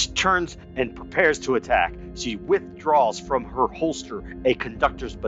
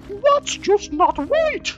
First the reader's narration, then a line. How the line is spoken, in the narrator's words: she like shrieks in pain ... she says